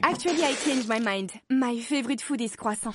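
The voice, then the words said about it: Put-on French accent. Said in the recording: “I can hear an accent starting to form in her speech... my French accent starts coming out”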